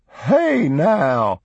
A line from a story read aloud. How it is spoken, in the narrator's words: cackled in a strong, lusty contralto that rang through the hall like a man's